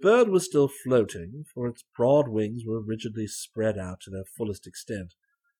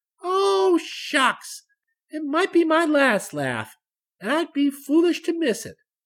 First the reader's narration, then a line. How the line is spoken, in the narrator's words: cried the child